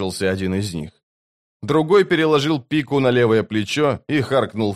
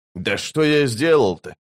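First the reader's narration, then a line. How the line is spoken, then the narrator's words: Offended indignation. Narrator (Russian): обиженно возмутился первый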